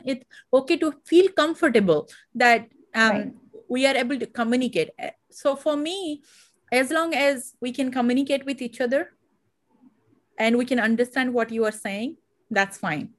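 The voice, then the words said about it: Indian English accent. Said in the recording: “I feel that I do have accent? Yeah, I feel like it. Today also I do have accent... Because we represent India.”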